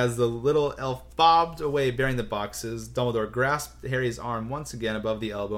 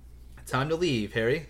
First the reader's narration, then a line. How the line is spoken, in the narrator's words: said Dumbledore quietly